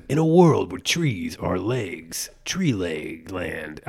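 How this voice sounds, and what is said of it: Old movie trailer announcer voice. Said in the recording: “the old trailer voice ... that grindhouse voice”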